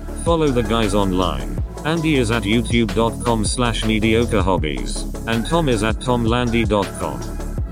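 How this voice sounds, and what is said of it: Bad robot voice. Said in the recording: “bad robot voice”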